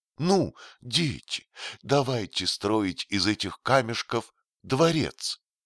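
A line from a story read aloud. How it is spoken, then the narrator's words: Child exclaiming. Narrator (Russian): воскликнуло неизвестное дитя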